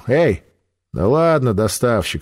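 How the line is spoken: Amused snort. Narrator (Russian): хмыкнула она

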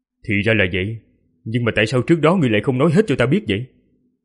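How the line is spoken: Sharp, irritated question. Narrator (Vietnamese): gắt giọng hỏi lại

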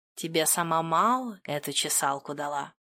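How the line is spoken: Purring. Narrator (Russian): промурлыкал

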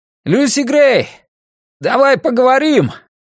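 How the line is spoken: Shouted. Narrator (Russian): крикнул

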